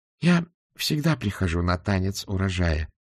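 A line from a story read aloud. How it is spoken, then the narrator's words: Calm. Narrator (Russian): спокойно сказала госпожа Флитворд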